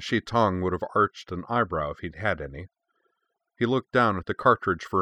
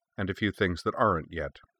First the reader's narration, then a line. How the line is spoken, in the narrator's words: she said flatly